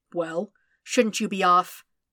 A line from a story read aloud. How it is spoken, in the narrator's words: Anakin spluttered, feeling half ready to explode